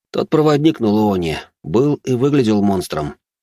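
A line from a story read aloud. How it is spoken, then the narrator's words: Sighing. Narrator (Russian): вздохнул я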